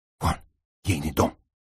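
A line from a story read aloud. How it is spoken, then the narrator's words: Whispered. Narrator (Russian): шепнул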